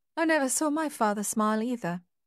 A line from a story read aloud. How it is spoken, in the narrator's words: she said